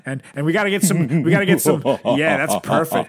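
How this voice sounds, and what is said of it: Spooky put-on voice. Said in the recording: “my spooky voice”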